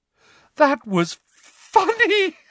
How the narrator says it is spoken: she gasped for breath

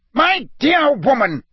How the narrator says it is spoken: roared, who likewise looked angrier than had ever seen him

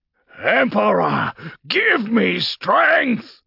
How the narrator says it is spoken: Castor roared

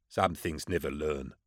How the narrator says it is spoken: Husman muttered

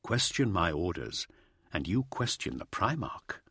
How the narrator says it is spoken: said Remus softly

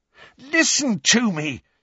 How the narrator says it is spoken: said Harry, almost angrily

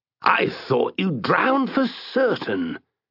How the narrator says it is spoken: exclaimed the knight

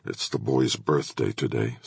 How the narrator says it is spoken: said Patrick quietly

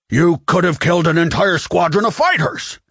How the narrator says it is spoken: Admiral Akbar shouted in exasperation

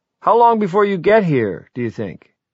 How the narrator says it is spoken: the fellow down the beach yelled

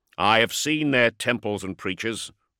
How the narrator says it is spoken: replied sharply

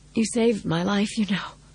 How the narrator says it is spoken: said hoarsely

